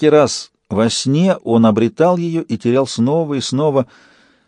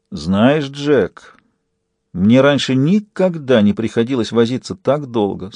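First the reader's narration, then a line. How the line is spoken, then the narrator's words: Despondent, teeth chattering. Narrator (Russian): сообщил он уныло, клацая от отчаяния зубами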